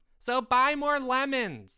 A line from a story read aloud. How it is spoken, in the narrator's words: screamed a little girl from the back